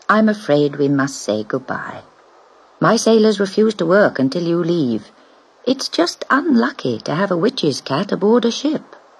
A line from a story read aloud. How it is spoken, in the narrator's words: he said kindly